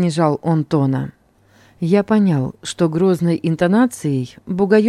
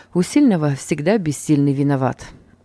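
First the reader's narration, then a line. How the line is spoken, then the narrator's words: Sigh. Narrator (Russian): вздохнул я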